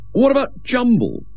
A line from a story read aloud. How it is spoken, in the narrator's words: He said indignantly